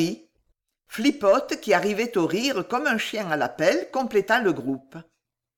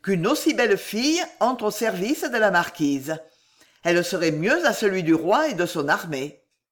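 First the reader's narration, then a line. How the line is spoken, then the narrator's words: Exclaimed. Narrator (French): s'exclama-t-il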